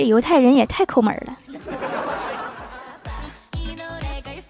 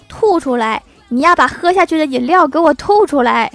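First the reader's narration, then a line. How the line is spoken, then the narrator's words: Shouting. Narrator (Chinese): 犹太人大喊道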